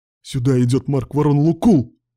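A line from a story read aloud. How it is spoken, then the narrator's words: Sudden cry. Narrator (Russian): вскрикнул он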